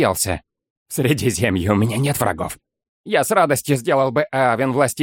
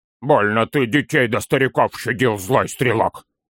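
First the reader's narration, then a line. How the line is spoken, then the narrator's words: Grumbling. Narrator (Russian): проворчал Торин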